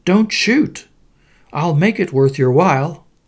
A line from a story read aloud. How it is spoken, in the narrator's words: the bird cried